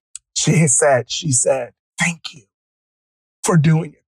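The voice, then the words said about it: Emotional, choked-up voice. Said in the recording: “I don't know why I'm getting emotional, man.”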